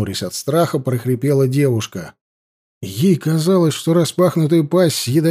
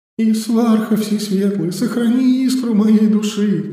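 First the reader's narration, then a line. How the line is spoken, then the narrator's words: Desperate prayer, fearing death. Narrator (Russian): Взмолилась она, уверенная, что настает ее смертный час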